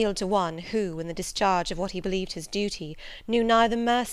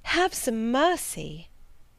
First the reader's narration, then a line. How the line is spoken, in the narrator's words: I cried